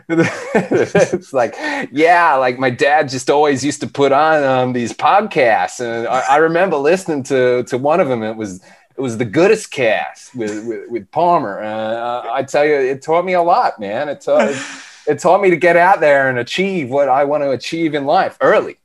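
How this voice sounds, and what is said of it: Bad put-on American accent. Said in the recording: “I resort to an American accent for this, and a terrible one at that.”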